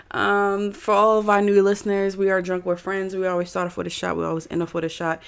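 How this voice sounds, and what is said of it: Monotone, sore-throated voice. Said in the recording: “I'm probably gonna be talking really monotone. I have a sore throat that's like creeping up on me, so hopefully you hear me. If not, turn me up.”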